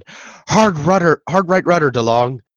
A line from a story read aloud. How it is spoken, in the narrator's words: Lieutenant Commander Carpenter, the ship's navigator, shouted